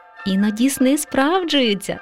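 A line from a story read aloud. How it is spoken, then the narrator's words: Mother mouse laughing. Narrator (Ukrainian): засміялася мама мишка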